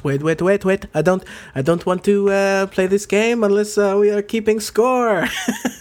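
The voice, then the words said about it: Bad exaggerated fake French accent. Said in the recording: “Is that a French accent? ... That is the worst French accent. ... It's just basically Beauty and the Beast version of a French accent.”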